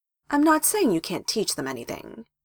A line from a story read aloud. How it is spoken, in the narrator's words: Hiruzen said in a reasonable voice